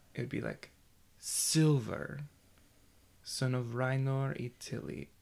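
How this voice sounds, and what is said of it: Light rhythmic put-on accent. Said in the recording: “not necessarily doing like a very strong accent, but instead doing a cadence ... a little bit of a accent where it's more rhythmic”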